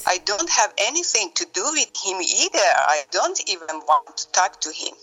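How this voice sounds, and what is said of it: English with a non-native accent. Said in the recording (Persian): “یه لهجه خاصی هم داشت. اصلا معلوم بود انگلیسی زبان نیست.”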